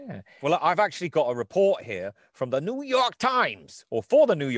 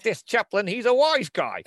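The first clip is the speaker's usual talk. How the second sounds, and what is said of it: Put-on New York accent. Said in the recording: “Do you like my New York accent for this? ... getting into the accent”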